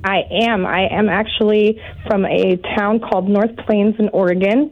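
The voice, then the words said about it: Congested voice from a cold. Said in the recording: “I have a cold”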